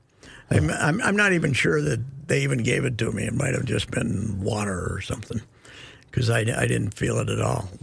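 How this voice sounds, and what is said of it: Hoarse voice. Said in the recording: “maybe that's why I'm so hoarse”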